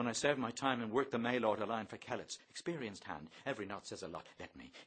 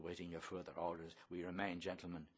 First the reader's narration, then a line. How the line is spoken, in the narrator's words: Bloom mumbles